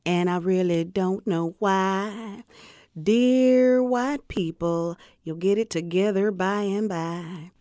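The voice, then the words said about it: Southern woman character voice, drawl. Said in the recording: “You use the voice of a Southern woman ... the Southern drawl”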